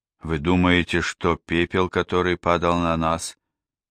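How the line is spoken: Hoarse unfriendly question. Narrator (Russian): Хриплым и недружелюбным голосом спросила миссис Рэпка

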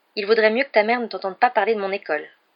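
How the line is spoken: Said coldly. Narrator (French): dit froidement Harry

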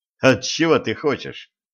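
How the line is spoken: Snorting. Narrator (Russian): хмыкнул Денис

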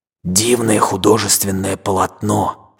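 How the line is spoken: Sailor's whispered shout. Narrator (Russian): шепотом закричал матрос, любивший книжные выражения

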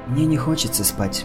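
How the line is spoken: Whisper, young woman. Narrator (Russian): шепотом сказала девушка

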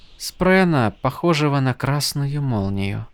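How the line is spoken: Soft. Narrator (Russian): тихонько проговорила Сил

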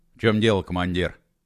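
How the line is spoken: Calm question. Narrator (Russian): спокойно спросил Холодовский

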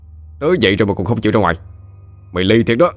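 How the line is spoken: Angry roar. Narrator (Vietnamese): Khá gầm lên

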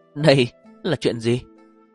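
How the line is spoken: Ashamed cry. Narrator (Vietnamese): Nàng xấu hổ kêu lên

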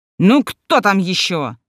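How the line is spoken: Barked. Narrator (Russian): рявкнул Георгий Георгиевич

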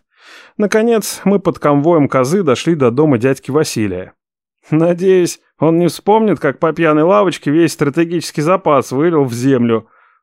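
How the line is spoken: Smirking grunt. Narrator (Russian): хмыкнул Мот

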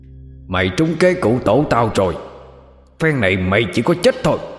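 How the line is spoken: Ringing shout. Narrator (Vietnamese): miệng hét vang

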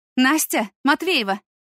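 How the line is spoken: Shout while running. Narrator (Russian): крикнула хореограф, подбегая

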